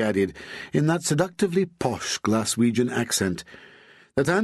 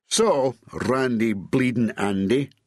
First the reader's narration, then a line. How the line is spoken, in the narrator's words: Bob snarled